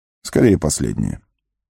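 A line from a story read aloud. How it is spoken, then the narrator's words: Calm. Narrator (Russian): спокойно ответил Гэндальф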